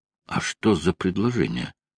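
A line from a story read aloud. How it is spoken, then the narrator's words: Insistent whispered questioning. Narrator (Russian): шепотом допытывался Шеридан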